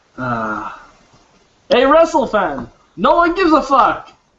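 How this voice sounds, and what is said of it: Comic character voice. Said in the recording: “do my Sal Bandini voice”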